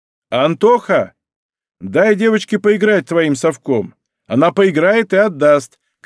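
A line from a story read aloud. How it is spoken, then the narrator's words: Shout. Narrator (Russian): крикнул Давид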